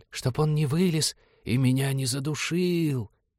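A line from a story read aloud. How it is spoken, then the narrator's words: Sepulchral voice. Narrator (Russian): загробным голосом сообщила девушка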